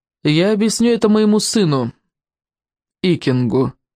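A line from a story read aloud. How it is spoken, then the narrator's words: Plain. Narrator (Russian): сказала Волгалорама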